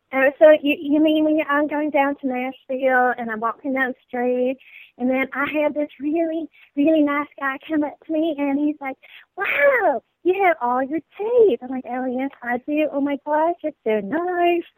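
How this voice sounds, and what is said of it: Put-on Southern American accent. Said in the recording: “You can do a New York accent, a French accent, and a Southern accent ... So that's my Southern.”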